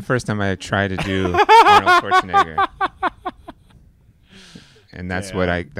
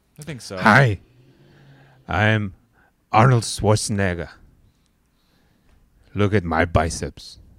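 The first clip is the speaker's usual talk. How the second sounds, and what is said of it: Austrian accent imitating another person. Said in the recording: “an Austrian accent ... Is that like an Arnold Schwarzenegger accent? ... That's not bad.”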